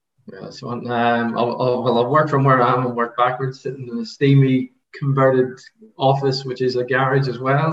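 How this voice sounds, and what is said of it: Irish accent. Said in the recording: “as you can tell, Irish accent.”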